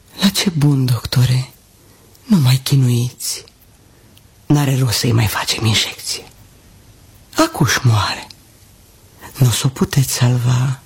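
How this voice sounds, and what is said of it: Whispered line. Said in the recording (Romanian): “mi-a șoptit”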